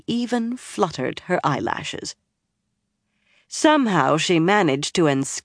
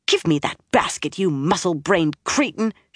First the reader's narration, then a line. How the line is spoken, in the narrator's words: she snarled